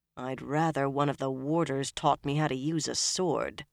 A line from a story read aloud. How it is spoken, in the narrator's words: Nynaeve growled